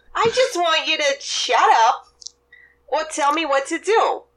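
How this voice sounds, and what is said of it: Bronx accent. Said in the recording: “My accent has shifted. That's what happens... You grew up in the Bronx”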